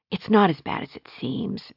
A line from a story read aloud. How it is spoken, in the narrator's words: she whispered